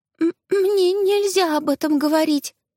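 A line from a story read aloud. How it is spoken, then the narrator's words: Trembling squeak, small child. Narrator (Russian): дрожащим голосом пропищала малышка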